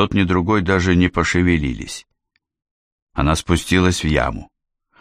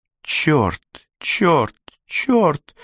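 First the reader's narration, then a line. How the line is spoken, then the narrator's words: Cursing through gritted teeth. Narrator (Russian): сквозь зубы ругалась Жанна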